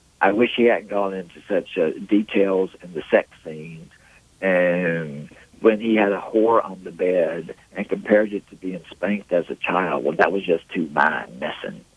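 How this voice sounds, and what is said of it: Put-on Southern American accent. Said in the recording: “I read it with a southern accent.”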